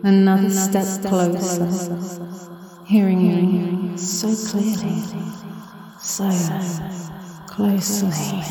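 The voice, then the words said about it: Soft whisper. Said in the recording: “I'm whispering”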